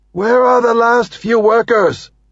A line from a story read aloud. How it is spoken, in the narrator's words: one of the crew shouts